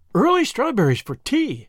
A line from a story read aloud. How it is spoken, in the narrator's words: exclaimed Miss Lavender